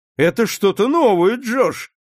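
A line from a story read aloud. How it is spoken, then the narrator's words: Laughing. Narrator (Russian): засмеялся Рональд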